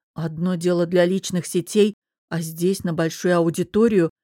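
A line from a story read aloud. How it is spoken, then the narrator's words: Hesitant explanation. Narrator (Russian): помявшись, пояснила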